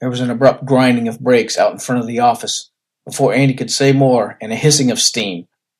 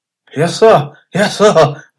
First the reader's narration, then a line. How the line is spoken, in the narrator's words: groaned Steamboat